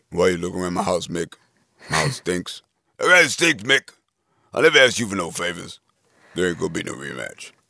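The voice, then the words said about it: Sylvester Stallone impression. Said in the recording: “I could do Stallone. ... What is the secret to a good impression?”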